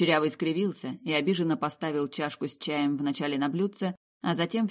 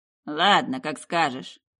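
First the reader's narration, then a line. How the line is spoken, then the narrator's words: Grumbling. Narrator (Russian): проворчал он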